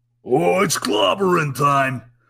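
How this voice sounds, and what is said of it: Gravelly East Coast character voice. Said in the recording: “You turn up with an East Coast accent and you get really gravelly, and there you got Ben Grimm.”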